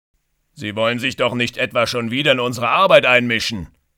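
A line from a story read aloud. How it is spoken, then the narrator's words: Calling out. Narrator (German): ruft Walter Hoppe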